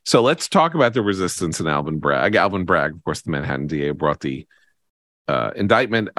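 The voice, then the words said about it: Hoarse voice, clearing throat. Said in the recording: “so I don't clear my throat ... I apologize for clearing my throat ... when I'm losing my voice”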